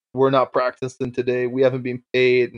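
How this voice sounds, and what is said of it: Quoted line in heavy accent. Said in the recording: “big accent”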